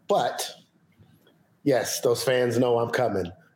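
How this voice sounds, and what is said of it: Quiet, subdued speaking voice. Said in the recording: “in a quieter voice ... I'll probably be a little bit calmer today ... I can still get at people in a quiet tone of voice”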